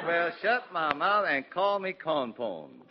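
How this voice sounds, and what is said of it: Put-on Southern American accent. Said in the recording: “why the southern accent? ... I'm talking this way so my southern listeners can understand me”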